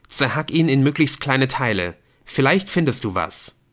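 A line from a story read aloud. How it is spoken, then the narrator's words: Calling out. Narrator (German): rief er Speedy zu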